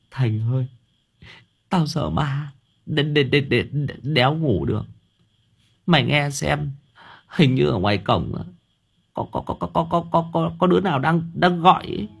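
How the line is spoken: Tearful whimper. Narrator (Vietnamese): Thằng Nam Cận mếu máo

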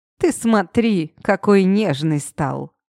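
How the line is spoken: Grandfather's snort. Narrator (Russian): фыркнул дед

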